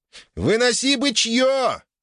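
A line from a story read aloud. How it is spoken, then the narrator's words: Joyful yell. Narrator (Russian): радостно заорал Циолковский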